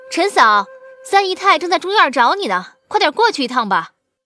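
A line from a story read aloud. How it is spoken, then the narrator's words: Calling from outside. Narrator (Chinese): 门外有其他仆妇喊道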